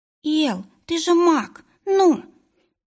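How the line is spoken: Squeak. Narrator (Russian): пискнул Тиин

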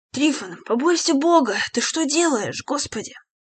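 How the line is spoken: Choked mumbling. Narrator (Russian): Дмитрий Плотников удушливо забормотал

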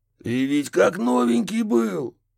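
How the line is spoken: Anguished howl. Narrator (Russian): взвыл за спиной детектив

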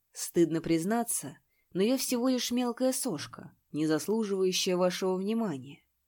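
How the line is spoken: Calm. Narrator (Russian): Он спокойно произнес

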